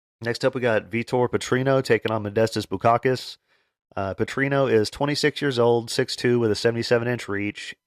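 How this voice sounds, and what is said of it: Strained, worn-out voice. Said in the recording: “my voice gets kind of messed up after talking for 30 minutes straight nonstop ... I hope the sound's all right”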